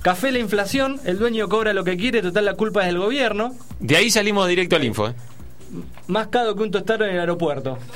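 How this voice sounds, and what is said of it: Commercial radio announcer voice. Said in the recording (Spanish): “¿tenés voz de locutor publicitario?”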